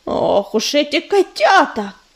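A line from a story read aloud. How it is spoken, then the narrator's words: Grumbling. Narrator (Russian): проворчала Пепелица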